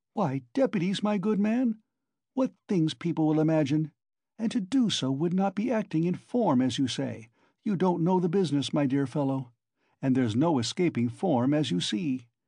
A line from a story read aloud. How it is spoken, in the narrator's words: Porfiry muttered